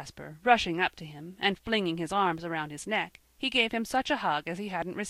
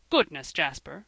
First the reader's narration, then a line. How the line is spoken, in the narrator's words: cried his father